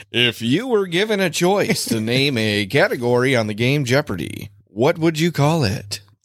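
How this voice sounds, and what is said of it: Game show announcer voice. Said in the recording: “Announcer voice.”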